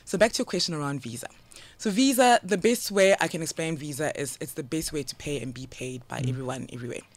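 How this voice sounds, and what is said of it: Strong South African accent. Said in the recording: “I grew up in SA. You know, hence the very, very strong. ... I get teased a lot by my accent ... she sounds African”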